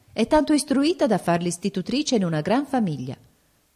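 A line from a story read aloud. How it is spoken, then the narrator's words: Exclaimed. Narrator (Italian): esclamò Rosmunda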